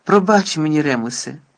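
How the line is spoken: Sighing. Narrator (Ukrainian): зітхнув Блек

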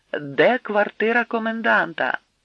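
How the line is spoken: Shouting in broken German. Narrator (Ukrainian): крикнув Кальвіцький жахливо каліченою німецькою мовою

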